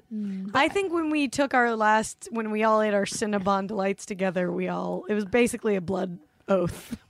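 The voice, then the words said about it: Rough, damaged-sounding voice. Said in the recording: “My voice is really fucked up right now”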